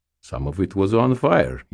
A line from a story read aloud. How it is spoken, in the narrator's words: he said cheerfully